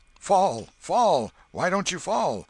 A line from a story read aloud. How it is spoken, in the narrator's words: Tom shouted